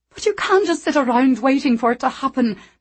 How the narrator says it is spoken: Meg said angrily

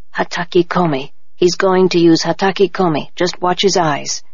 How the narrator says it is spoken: Nobu whispered to me

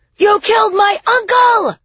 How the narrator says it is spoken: Liriana screamed

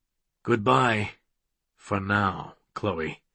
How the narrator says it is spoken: Webb murmured

